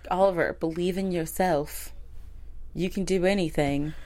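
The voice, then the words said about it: Terrible unidentifiable put-on accent. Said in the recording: “I don't know what accent this is. It's terrible.”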